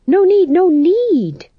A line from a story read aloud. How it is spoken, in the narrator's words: said the fool desperately